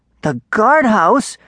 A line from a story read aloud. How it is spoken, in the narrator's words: Darek cried